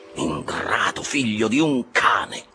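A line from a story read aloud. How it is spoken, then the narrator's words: Exclaimed. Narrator (Italian): esclamò Starbuck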